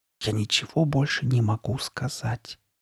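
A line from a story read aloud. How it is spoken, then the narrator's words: Whispered repetition. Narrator (Russian): шепотом повторил он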